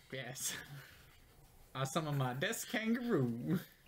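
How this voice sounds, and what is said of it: Character voice, accent pitched up. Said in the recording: “That's not how Chumley speaks. ... That was just the same accent pitched up.”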